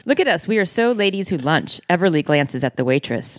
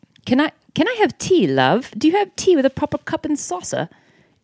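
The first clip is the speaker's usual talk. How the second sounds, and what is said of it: Deliberately bad British accent. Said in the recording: “the worst attempt at a British accent I've ever heard ... I'm so glad she said the worst British accent, because that's what I just did.”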